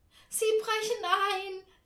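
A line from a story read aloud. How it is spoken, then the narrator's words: Whining lament. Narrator (German): jammert Tante Ernie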